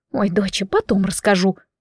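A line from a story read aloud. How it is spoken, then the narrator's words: Whispering woman. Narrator (Russian): тоже шепотом ответила женщина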